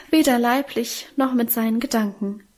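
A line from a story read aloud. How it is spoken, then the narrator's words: Soulful sigh. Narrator (German): seufzte unser Mienchen gefühlvoll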